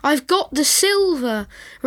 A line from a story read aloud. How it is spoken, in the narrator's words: Rosie cried out to everyone else in the park